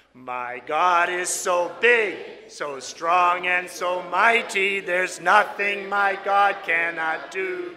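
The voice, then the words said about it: Raspy singing voice. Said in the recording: “my voice is a little raspy”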